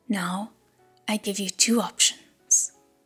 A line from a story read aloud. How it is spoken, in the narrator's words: said coldly